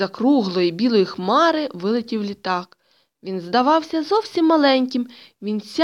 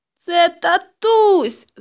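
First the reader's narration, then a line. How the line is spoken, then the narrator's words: Shouted. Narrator (Ukrainian): закричала Тома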